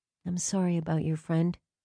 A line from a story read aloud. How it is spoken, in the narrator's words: she said gently